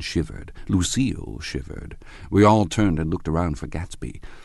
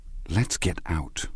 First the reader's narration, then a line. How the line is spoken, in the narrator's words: whispered Jordan